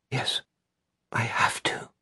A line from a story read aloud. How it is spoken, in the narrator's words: Holly whispers